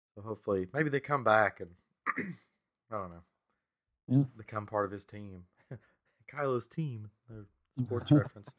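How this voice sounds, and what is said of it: Strained, failing voice. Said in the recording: “I'm losing my voice,”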